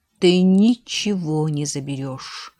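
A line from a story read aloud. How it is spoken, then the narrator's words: Hissed. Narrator (Russian): прошипел Сейтахт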